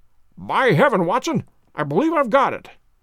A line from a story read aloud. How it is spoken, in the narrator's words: he cried